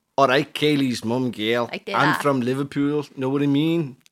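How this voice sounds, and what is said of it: Bad put-on Scouse accent. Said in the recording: “How are you managing to do a bad Scouse accent?”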